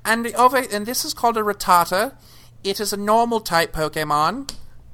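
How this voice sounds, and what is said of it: Put-on, unidentifiable accent. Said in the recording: “I don't know what accent this is I'm trying to do”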